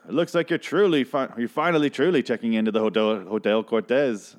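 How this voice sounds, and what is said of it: Briefly puts on an accent. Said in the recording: “I don't know why I did that accent”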